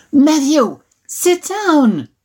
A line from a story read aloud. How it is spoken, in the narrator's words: Mom shouted